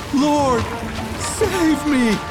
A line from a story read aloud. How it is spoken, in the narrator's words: he got afraid, and after starting to sink, he cried out